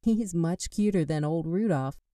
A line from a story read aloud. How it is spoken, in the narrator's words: she said with a giggle